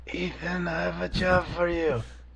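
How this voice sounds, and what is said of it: Raspy imitated voice. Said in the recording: “his voice was so raspy at parts ... That's a good impression.”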